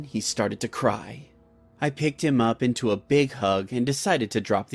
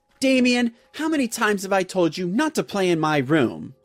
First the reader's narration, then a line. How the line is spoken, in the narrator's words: I screamed out loudly